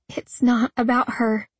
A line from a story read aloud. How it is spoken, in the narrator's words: I managed to say without sobbing